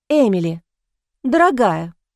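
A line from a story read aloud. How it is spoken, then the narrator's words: Exclaimed. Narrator (Russian): воскликнула она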